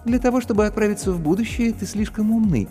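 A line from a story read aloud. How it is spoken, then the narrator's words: Tender, smiling young woman. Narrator (Russian): ласково улыбнулась девушка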